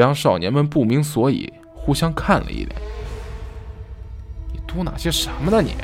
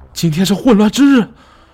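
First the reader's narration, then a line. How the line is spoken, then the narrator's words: Shouting. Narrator (Chinese): 我大喊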